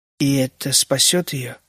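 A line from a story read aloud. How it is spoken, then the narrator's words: Quiet question. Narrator (Russian): спросил Генри тихо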